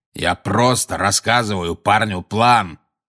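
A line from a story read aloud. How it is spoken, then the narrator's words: Growling. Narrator (Russian): прорычал Грюм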